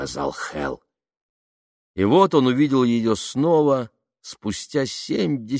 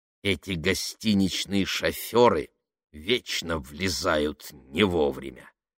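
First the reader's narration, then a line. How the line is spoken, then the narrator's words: Grumbling inner voice. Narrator (Russian): пробурчал внутренний голос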